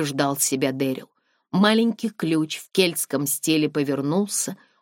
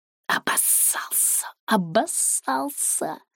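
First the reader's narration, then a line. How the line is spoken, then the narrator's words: Hissing with broad grin. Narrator (Russian): зашипел он, улыбаясь еще шире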